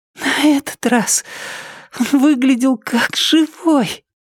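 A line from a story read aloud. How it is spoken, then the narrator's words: Wheezy rasp. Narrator (Russian): просипела она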